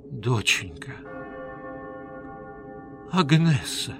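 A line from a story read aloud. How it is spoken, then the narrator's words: Whisper. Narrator (Russian): прошептала Пакетта Шамфлери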